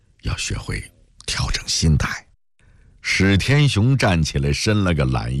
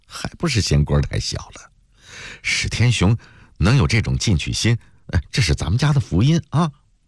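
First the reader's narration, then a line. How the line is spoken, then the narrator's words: Muffled giggling. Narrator (Chinese): 陆小艺捂着嘴痴痴地笑着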